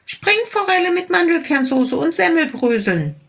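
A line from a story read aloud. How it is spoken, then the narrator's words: Small tiger calling out. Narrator (German): rief der kleine Tiger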